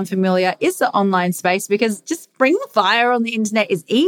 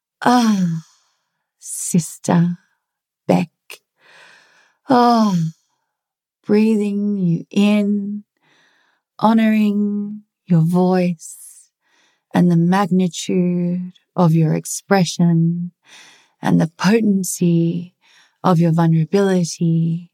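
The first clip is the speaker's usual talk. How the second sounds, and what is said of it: Flowy, breathy spiritual woman voice. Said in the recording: “the woo-woo women that are like flowy ... I'm going to do an impersonation”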